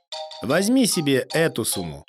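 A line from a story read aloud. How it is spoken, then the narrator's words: Plain. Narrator (Russian): говорит журавль старику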